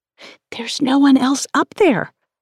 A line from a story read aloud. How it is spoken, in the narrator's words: I whispered to Matt